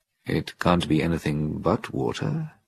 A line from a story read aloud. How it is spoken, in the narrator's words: muttered